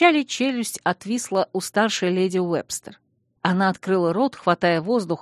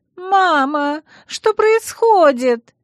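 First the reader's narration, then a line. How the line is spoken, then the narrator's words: Screaming. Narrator (Russian): завопила Ванесса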